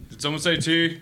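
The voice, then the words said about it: Impression of a friend. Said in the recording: “That was the best impression I've ever heard in my life. That was so good.”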